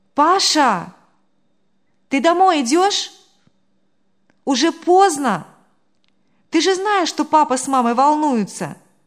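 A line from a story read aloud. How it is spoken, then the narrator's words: Sudden loud call. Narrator (Russian): Девушка вдруг громко позвала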